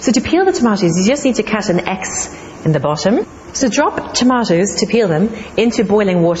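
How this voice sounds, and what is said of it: Irish Cork accent. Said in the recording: “There was a hint of the Irish, ... the Cork accent there”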